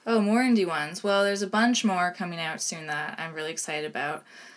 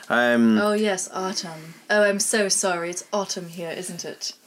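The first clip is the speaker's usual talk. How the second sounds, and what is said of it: Put-on English accent. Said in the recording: “Do your English accent? ... I just did.”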